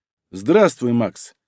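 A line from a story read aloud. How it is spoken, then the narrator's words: Calm young man. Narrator (Russian): спокойно отреагировал парень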